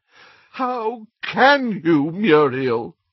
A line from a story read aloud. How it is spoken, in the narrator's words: groaned Doge